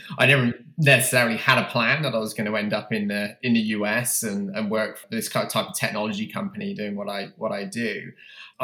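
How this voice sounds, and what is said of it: British accent. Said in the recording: “I'm obviously from the UK, you can tell from my accent”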